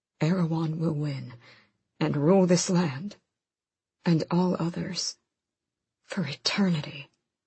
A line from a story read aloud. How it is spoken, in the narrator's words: Gavin whispered